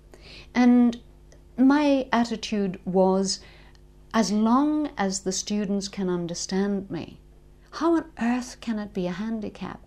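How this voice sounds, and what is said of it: Northern Irish accent. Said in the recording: “Do you not think your accent would be a handicap? ... I'm not an RP speaker ... I am quintessentially a Northern Ireland person”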